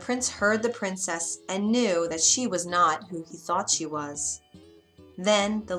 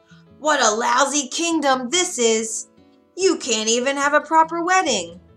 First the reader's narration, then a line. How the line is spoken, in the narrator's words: The princess then shouted in a gruff, harsh voice